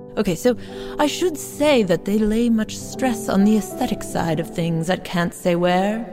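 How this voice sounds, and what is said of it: Fake British accent. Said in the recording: “I really am tempted to do this in a fake British accent”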